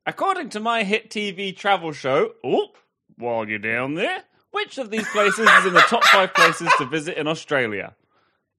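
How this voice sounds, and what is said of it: Put-on Australian accent. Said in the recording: “by your accent, I feel like I already have ... I think I'm going to be tripped up by Australians going, that wasn't very good or nice.”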